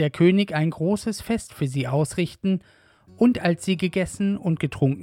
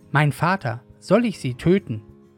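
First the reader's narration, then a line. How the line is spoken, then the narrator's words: King calling out. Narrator (German): Als der König von Israel sie sah, rief er Elisa zu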